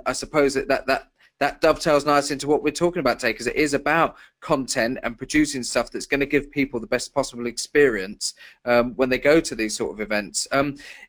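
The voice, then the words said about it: English accent. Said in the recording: “saying it in an English accent”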